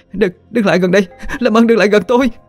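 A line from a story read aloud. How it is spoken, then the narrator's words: Terrified hoarse screaming. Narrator (Vietnamese): Cô sợ hãi, hét lên những tiếng khản đặc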